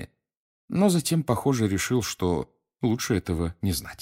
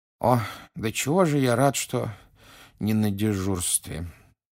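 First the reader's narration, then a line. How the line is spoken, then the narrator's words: Sleepy mumble. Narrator (Russian): сонно пробормотал мистер Уизли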